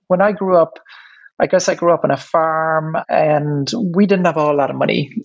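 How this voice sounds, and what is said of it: Irish accent. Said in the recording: “You can probably hear from my accent that I'm Irish.”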